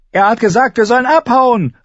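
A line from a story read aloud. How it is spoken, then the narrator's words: Calling out. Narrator (German): rief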